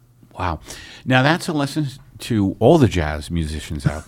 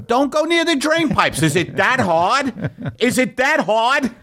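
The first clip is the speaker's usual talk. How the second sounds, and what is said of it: Put-on New York accent. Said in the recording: “That's my New York accent.”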